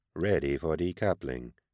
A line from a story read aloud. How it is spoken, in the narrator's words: it muttered, speaking into a Vox pickup